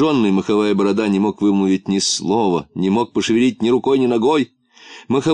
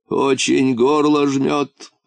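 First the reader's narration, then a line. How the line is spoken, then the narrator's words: Hoarse rasp. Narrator (Russian): прохрипел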